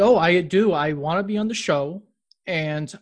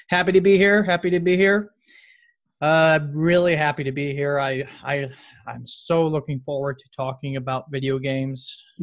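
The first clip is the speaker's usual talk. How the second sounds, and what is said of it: Sarcastic, unenthusiastic delivery. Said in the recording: “You sound sarcastic.”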